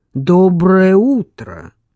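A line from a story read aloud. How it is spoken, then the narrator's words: Booming, echoing voice. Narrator (Russian): Голос прогремел, как пушечный выстрел, отразившись эхом по каменным стенам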